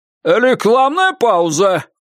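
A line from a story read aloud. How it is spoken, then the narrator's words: Shout. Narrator (Russian): крикнул Джордж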